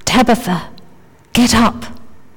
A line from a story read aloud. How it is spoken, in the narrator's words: he said quietly in her ear